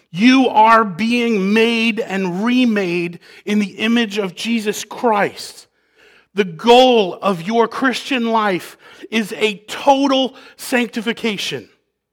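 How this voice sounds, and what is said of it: Yelling, loud preaching voice. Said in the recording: “while I'm yelling at you”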